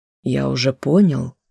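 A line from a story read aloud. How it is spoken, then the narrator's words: Calm. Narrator (Russian): спокойно отозвался он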